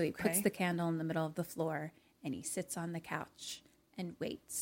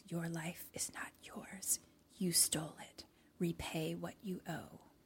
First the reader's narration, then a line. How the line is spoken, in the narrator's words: the thing whispers